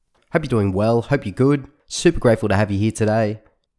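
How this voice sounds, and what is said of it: Nasal, congested voice. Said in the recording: “if I sound a bit nasally. ... I'm just coming off the cold.”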